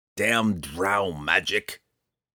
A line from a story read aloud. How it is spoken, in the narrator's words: Roddy grumbled